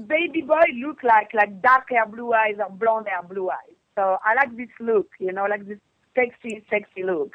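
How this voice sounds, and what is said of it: French accent. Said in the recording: “It's my accent... Frenchy”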